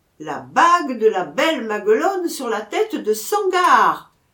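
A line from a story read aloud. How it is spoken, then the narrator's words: Bugler shouting. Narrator (French): cria le clairon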